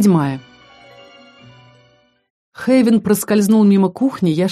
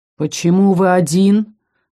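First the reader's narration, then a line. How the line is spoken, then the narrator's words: Menacing. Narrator (Russian): прозвучало грозно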